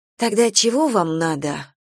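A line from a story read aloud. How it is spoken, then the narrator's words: Tired question. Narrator (Russian): устало спросила Галя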